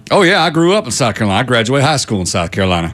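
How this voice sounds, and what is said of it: Southern US accent, like Forrest Gump. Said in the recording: “Do you know who you sound like right now? ... Forrest Gump. ... She does like that accent”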